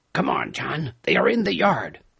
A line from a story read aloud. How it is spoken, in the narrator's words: the captain whispered